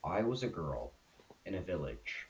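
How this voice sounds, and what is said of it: Sings in a serious voice. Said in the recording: “that in a serious voice.”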